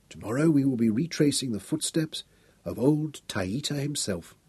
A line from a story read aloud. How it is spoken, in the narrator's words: Royan whispered